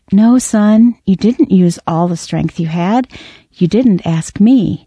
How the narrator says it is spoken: The father corrected kindly

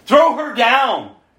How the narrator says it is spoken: yelled

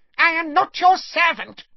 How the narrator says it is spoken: he squeaked

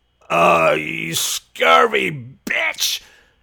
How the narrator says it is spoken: He groaned thickly

